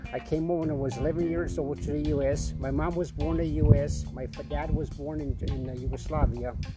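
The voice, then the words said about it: Accent that sounds like New York. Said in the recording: “So that's not a New York accent.”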